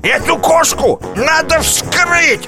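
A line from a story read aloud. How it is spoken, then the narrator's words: Shouting after speechlessness. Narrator (Russian): закричал он, когда к нему вернулся дар речи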